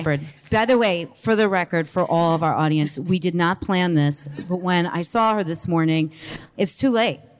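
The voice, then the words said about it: New Jersey accent. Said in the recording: “I have a Jersey ... twang. ... Accent.”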